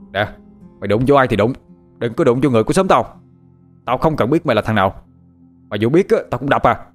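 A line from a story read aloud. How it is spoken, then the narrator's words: Shouted. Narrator (Vietnamese): Nó quát lên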